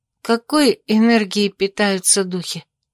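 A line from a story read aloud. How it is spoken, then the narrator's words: Sleepy, stifling a yawn. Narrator (Russian): сонно проговорила я, подавляя зевок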